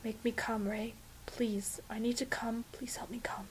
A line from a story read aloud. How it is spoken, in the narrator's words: the sex gets a little bit desperate, and maybe Fraser ends up whispering